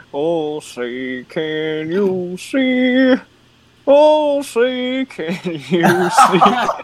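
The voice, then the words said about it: Sings imitating a rock singer's voice. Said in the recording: “doing a Creed voice ... it was Creed? Scott Stapp.”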